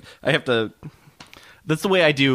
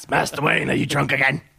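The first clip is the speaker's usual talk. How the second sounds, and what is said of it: Imitates another person's voice. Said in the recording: “I gotta do Jeremy Hans... when I have certain impressions that I have to say the person's name in that impression in order to do the impression”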